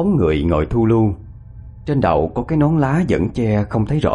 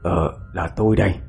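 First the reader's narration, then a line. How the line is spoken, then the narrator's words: Soft call. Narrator (Vietnamese): Ông cất tiếng gọi khẽ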